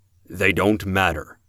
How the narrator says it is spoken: Laird said

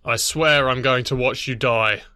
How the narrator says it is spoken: Joseph growled the words

